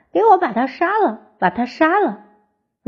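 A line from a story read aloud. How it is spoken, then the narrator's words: Child shouting. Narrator (Chinese): 弟弟指着蕊蕊大喊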